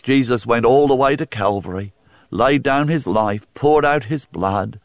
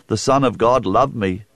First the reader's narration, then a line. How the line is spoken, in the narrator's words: said Paul